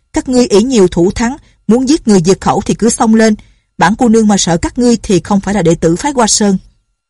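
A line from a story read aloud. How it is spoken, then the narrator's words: Defiant shout. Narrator (Vietnamese): Nhạc Linh Sang la lên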